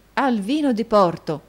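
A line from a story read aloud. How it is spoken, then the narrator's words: Exclamation. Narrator (Italian): esclamò Nicola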